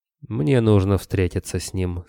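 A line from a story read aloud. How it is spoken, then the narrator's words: Calm. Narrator (Russian): спокойно произнес Кобылин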